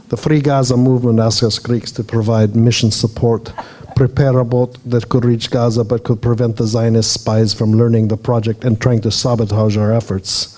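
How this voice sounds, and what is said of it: Put-on Greek accent. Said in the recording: “I'll try to do it with a Greek accent.”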